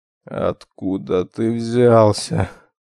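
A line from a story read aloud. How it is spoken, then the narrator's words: Hoarse, strained wheeze. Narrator (Russian): прохрипел, собравшись силами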